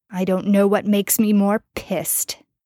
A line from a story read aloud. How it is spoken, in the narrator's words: Jensen snarled